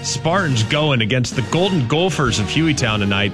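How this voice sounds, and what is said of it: Put-on Minnesota accent. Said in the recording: “I know it's a Minnesota accent, but that's the only way I know how to say Gopher.”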